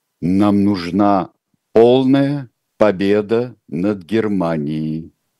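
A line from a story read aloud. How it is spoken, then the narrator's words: Slow and stern. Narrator (Russian): медленно и сурово произнесла Александра Федоровна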